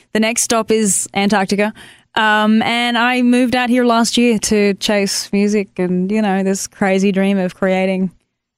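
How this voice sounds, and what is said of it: Australian accent. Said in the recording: “I'm sure our audience can already hear your accent.”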